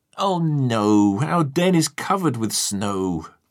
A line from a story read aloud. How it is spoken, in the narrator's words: Tiger moaned